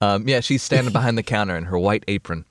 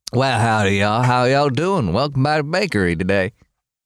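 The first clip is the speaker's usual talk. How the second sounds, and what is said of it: Put-on Southern American accent. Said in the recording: “I started the southern accent a little bit too soon.”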